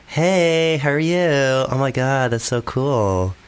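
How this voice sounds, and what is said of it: Put-on Valley Girl Californian accent. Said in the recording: “Valley Girl ... you're actually quite a good accent”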